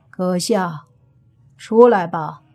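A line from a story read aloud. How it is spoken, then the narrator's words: Flat, calm voice. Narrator (Chinese): 声音淡淡的说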